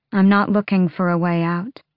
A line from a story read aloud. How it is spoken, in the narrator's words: she said in that calm, unmoved voice